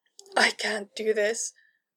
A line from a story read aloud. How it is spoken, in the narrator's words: Kara whimpered, so very scared